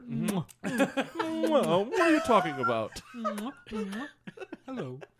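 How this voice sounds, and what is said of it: Super proper European-sounding character voice. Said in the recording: “My impression of a goldfish. ... Like, super proper. ... European goldfish.”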